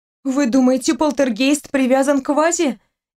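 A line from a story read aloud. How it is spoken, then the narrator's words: Frightened question. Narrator (Russian): испуганно спросила Настя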